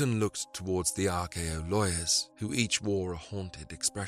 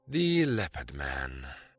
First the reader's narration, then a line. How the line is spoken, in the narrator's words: Fendler sighed